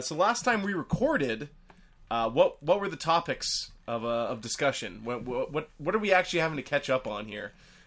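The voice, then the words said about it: Sick, flu-affected voice. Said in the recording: “you can tell I'm a little sick. This is not my usual podcast voice... sick with the flu”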